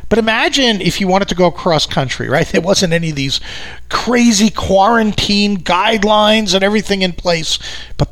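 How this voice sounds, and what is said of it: New York accent. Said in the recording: “I live out here in New York, if you haven't picked up from my accent”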